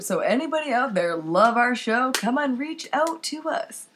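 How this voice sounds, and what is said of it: Mock radio announcer voice. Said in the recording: “That's my radio voice.”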